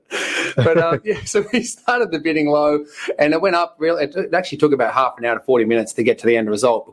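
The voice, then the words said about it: Non-American accent. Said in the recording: “you're not from the United States ... We'll tell a little bit by the accent ... just over that ocean”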